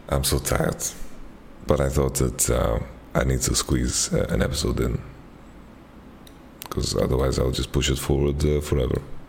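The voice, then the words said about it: Hoarse, fading voice from cold. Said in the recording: “I'm losing my voice a little bit. We have like a cold going in the office”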